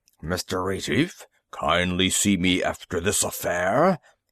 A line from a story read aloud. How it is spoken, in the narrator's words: he hissed